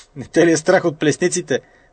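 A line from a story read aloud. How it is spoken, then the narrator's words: Old man laughing. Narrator (Bulgarian): засмяло се старчето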